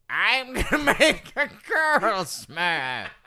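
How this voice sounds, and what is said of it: Gargamel cartoon villain voice. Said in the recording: “My Gargamel impression”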